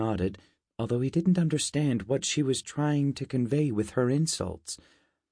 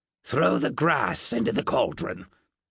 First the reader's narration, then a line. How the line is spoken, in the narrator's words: Gwell grunted